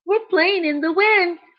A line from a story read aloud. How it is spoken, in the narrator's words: they squealed